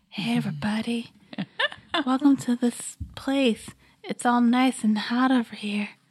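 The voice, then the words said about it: Seductive sultry voice. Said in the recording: “I did a sex voice. ... that's like really seductive.”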